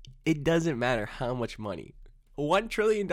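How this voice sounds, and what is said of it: Usual voice. Nothing is said of it.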